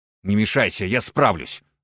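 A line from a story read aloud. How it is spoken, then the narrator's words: Snapped again. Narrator (Russian): снова огрызнулся он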